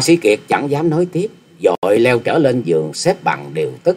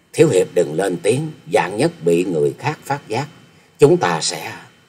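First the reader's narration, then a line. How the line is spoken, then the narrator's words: Soft young woman's voice. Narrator (Vietnamese): Thiếu nữ khẽ giọng nói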